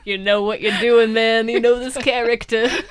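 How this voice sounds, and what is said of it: Put-on Boston accent. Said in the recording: “Boston accent”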